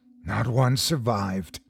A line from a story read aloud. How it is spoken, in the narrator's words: concluded Paul, his voice a hoarse whisper that barely competed with the lapping of the waves against our hull